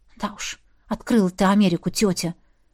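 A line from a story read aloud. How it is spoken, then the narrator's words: Disappointed sigh. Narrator (Russian): Вздохнула разочарованно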